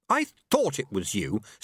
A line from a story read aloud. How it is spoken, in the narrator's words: snapped Susan